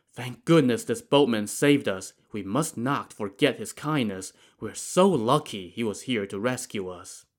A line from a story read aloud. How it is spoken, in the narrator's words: a relieved whispered